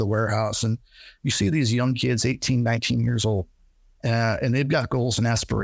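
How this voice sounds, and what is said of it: Usual voice. Nothing is said of it.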